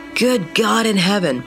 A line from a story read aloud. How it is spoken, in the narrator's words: choked out